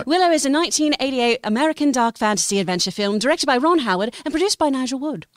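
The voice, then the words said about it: Put-on UK accent. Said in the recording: “you better have some kind of UK dialect ... Wow, that was pretty great.”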